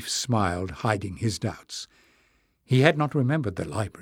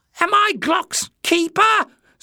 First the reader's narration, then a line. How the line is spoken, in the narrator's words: screeched Jinx